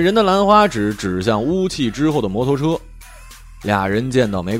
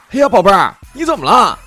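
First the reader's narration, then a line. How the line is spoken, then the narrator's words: Man yelling. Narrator (Chinese): 其中一个人大叫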